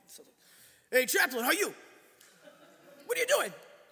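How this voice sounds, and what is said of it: Put-on Staten Island/Long Island accent. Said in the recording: “I usually am not so good at doing a great Staten Island, Long Island accent, but I'm going to try to give it to you.”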